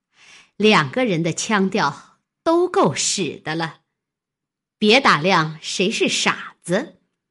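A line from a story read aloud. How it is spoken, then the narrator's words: Cold sneer. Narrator (Chinese): 金贵冷笑道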